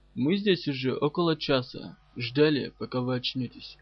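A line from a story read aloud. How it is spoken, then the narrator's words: Hoarse wheeze. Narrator (Russian): присипел капрал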